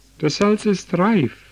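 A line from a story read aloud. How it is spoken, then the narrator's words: Called out. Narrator (German): rief der Schweinehirt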